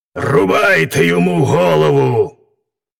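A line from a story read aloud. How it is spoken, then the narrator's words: Ruler barking at full force. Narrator (Ukrainian): правитель гаркнув щосили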